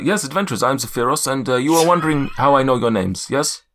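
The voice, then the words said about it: Ambitious put-on accent, character voice. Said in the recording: “this was my most ambitious accent yet, and it's failed miserably. ... it works very well with the character”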